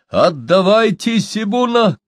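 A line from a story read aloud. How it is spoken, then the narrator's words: Shout. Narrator (Russian): крикнул он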